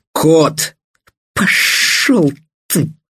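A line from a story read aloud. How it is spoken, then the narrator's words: Hissing she-wolf. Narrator (Russian): прошипела волчица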